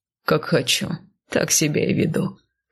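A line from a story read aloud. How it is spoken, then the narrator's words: Short laugh. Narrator (Russian): хохотнул он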